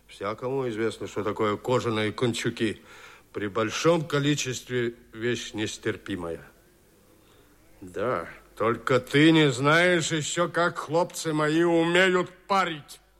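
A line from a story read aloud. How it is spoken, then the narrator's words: Menacing. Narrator (Russian): сказал сотник грозно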